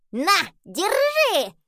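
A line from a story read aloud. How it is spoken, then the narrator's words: Shouted. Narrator (Russian): закричал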